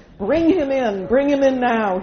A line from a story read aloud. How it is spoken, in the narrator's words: he shouted